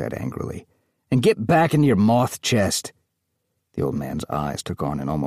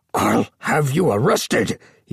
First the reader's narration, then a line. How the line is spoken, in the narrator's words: he wheezed